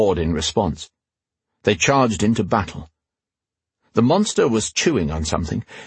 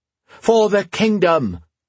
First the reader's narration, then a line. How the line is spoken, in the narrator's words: she cried